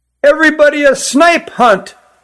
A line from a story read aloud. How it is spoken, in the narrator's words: yelled one